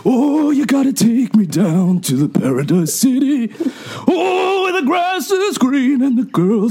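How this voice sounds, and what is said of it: Imitates another person's singing voice. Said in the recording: “impression of Bruce Springsteen singing ... You sing Paradise City as if Bruce Springsteen”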